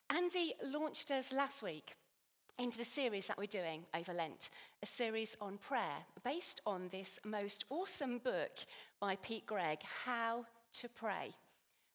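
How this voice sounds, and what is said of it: Slightly hoarse, strained voice. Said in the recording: “I'm losing my voice a little because 1,500 people, we've just had an awesome time in worshiping. So I've screamed my lungs out”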